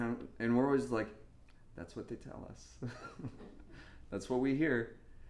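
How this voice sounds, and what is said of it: Usual voice. Nothing is said of it.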